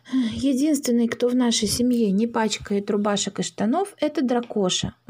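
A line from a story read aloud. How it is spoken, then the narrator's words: Sighing. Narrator (Russian): вздохнула мама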